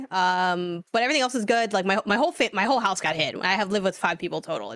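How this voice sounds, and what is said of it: Sore-throated, slightly altered voice. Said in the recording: “I still do have a little bit of a sore throat and a cough. So if I sound different, that's why.”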